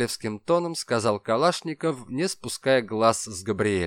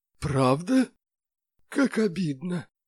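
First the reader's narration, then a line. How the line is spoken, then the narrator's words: Muffled, from inside a wardrobe. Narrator (Russian): глухо донеслось из платяного шкафа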